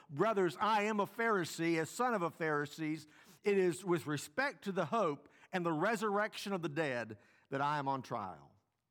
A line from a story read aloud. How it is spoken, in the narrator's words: he cried out in the council